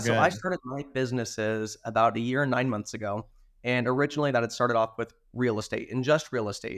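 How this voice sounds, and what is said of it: Hoarse, strained voice. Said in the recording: “I was previously sick, so it may sound like I'm losing my voice. I'm a little bit hoarse today”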